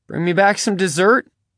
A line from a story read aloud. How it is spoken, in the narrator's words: Bubba laughed